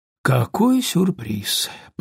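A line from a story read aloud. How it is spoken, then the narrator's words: Mumbled. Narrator (Russian): пробормотал Том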